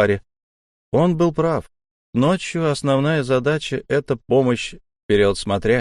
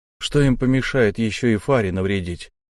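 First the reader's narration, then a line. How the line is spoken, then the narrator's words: Plain. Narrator (Russian): наконец сказал я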